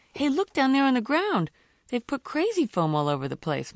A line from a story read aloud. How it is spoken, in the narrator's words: brother squealed